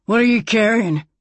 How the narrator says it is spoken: he growled

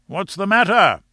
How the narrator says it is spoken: shouted Roxton from below

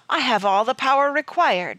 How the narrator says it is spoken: said loudly

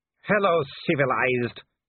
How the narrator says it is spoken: he growled

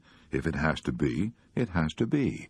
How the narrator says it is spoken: Sarah said quietly

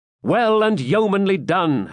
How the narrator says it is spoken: shouted the robbers

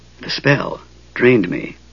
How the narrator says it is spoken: he whispered

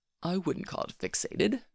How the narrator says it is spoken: Malfoy said coolly

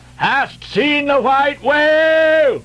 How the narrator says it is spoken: So cried Ahab

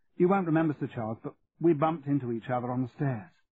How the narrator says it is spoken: Cathy said, nervously

